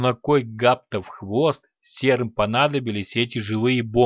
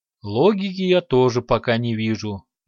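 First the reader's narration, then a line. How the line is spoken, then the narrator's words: Mentor sighing. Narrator (Russian): вздохнул наставник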